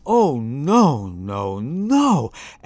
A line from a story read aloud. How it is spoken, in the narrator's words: exclaimed Madame Argo